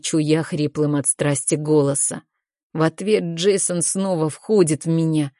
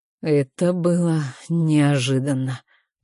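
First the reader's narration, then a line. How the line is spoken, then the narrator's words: Hoarse with emotion. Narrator (Russian): произносит Джейсон хриплым от волнения голосом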